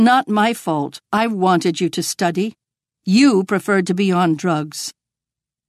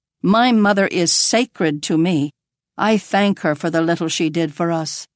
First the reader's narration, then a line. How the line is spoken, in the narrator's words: Lourdes says